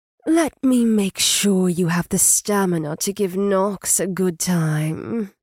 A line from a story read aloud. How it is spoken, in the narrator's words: Tawny purred